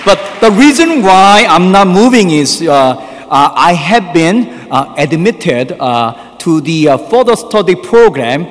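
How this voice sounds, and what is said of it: Korean-accented English. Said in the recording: “the Korean accent priest”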